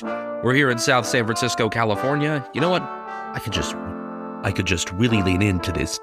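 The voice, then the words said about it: Deep, rough sore-throat voice. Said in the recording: “kind of got a sore throat ... deep voice”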